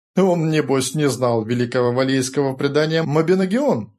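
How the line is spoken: Wry snort. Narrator (Russian): хмыкнул Рори

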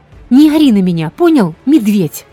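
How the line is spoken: Yelled reply. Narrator (Russian): Завопила я в ответ не хуже Кармак

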